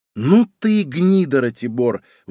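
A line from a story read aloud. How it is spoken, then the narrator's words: Exclamation. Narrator (Russian): воскликнула Злата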